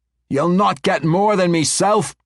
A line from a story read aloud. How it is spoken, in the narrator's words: Brunner shouted at him